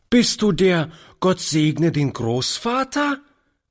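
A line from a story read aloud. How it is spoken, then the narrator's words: Lively child calling. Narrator (German): rief die Kleine lebhaft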